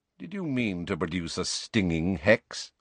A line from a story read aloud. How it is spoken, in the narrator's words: asked Snape coolly